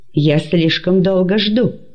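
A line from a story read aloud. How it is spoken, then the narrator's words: Sharp speech. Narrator (Russian): сказал он резко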